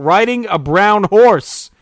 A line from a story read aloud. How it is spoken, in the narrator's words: having no hope, one of the contestants shouted out